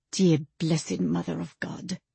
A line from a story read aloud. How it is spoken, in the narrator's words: Leo whispered